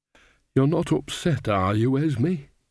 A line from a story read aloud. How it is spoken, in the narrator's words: said Nanny anxiously